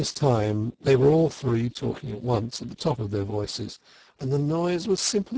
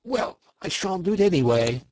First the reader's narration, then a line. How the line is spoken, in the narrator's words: cried the toad, getting excited